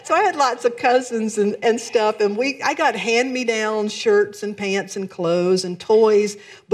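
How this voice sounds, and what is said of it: Southern American accent. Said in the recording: “I'm from the South, in case you didn't pick up on an accent. I can't really hide it”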